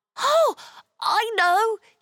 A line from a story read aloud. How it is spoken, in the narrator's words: he exclaimed instantly